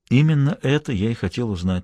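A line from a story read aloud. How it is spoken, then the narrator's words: Very quiet. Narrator (Russian): сказал он совсем тихо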